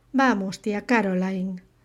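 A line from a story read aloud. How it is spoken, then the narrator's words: Plain. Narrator (Spanish): dijo Bárbara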